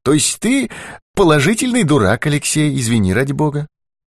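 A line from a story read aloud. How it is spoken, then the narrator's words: Sighing. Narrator (Russian): Быков вздохнул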